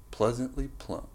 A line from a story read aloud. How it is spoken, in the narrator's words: John mumbled to himself